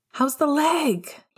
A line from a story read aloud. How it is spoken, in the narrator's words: He shouted over to Moody